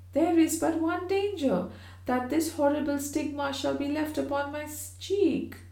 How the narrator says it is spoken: cried Georgiana

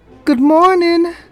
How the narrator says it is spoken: She called out

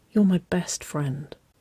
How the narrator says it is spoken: she whispered, her cheeks heating deeply with her own anticipation

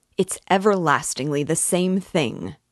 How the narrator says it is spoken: cried Raskolnikov irritably

